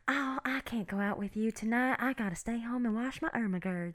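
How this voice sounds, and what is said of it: Put-on Southern Belle accent. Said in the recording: “what's this accent I got? ... It's very Southern Belle. ... That was amazing.”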